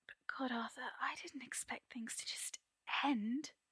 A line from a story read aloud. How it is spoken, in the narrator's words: Merlin whispers, feeling wretched